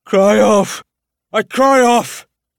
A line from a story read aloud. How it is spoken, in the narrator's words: he cried